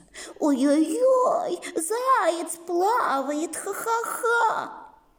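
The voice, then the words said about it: Mocking voice of a laughing onlooker. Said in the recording (Russian): “передразнил того, кто будет смеяться”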